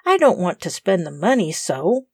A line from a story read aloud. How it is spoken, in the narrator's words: said Tom almost crossly